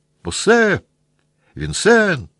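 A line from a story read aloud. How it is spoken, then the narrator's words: Shout. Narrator (Russian): прокричал Петя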